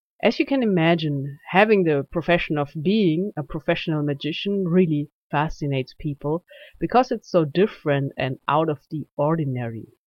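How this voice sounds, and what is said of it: German accent. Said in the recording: “you can hear my German accent”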